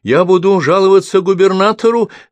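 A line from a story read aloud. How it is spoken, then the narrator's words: Shouted. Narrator (Russian): закричал правитель канцелярии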